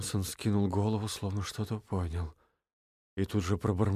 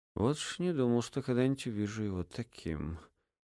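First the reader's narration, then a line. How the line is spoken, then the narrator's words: Sigh. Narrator (Russian): вздохнул Эдельхейд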